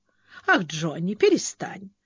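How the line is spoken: Girlish giggle. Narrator (Russian): Айрис хихикнула, как девчонка

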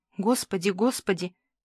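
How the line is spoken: Quiet little voice whispering. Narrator (Russian): зашептал тихий голосок

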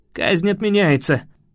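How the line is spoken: Hoarse rasp. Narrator (Russian): Прохрипел я

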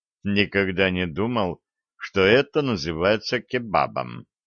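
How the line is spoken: Mumbling. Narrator (Russian): пробормотал ведун

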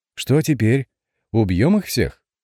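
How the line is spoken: Cheerful girl shouting over noise. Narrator (Russian): Перекрикивая гвалт, весело спросила девица

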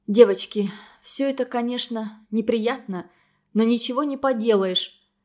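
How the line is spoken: Bitter sighing speech. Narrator (Russian): начала она говорить и горько вздохнула

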